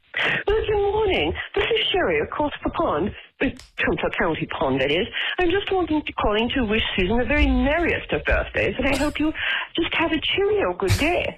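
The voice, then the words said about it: Put-on accent. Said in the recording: “That's so much better than my accent.”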